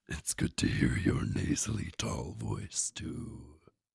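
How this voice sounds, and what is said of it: Booming, raspy character voice. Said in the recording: “that booming, raspy voice”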